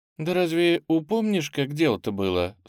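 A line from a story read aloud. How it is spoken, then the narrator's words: Halting, thoughtful. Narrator (Russian): с трудом говорит она, задумчиво глядя на море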